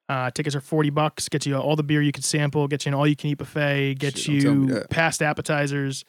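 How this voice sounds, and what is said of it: Fast radio announcer delivery. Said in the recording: “The radio voice just came in. The whole speed. ... boom, boom, boom, boom, boom.”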